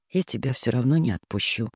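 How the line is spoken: Said quietly. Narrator (Russian): тихо сказал

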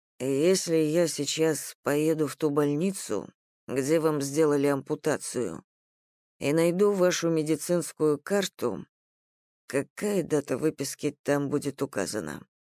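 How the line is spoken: Quiet question. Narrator (Russian): тихо спросил Артур

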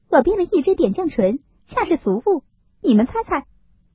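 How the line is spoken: Laughing. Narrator (Chinese): 湘云笑道

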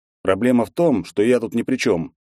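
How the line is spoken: Snorting reply. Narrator (Russian): хмыкнул я в ответ

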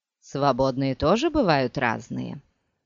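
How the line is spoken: Calm objection. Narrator (Russian): спокойно возразил ей Скайтейл

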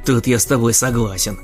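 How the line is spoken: Snort. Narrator (Russian): хмыкнул Саня

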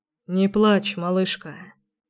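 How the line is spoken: Tender. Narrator (Russian): сказал он нежно

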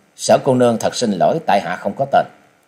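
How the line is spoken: Cold speech. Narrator (Vietnamese): chàng lạnh lùng nói

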